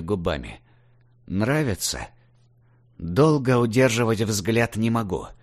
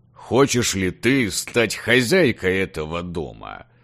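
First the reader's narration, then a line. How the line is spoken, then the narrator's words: Booming, thunderous. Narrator (Russian): Прогремело громом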